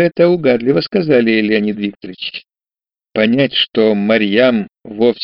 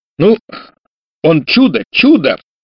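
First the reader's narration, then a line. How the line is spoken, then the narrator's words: Deep bass. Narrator (Russian): пробасил Александр Иванович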